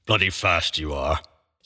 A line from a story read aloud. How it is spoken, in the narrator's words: he muttered